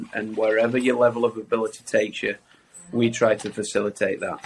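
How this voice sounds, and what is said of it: Accent from across the water. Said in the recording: “As you can tell by my accent ... across the water”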